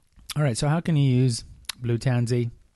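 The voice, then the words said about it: Put-on Australian accent. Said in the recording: “I'm saying it with an Australian accent”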